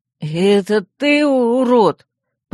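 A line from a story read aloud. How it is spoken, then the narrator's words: Chubby boy moaning. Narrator (Russian): простонал пухлый пацан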